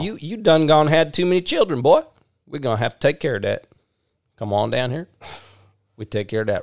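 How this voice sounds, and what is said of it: Put-on Alabama Southern accent. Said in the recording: “She from Mobile ... down there in Alabama ... How do they say Alabama down in Alabama? ... Different accent ... Way different accent”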